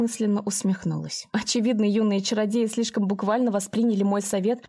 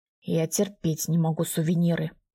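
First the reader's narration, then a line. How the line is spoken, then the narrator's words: Gloomy reply. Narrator (Russian): мрачно ответил Анатолий Сергеевич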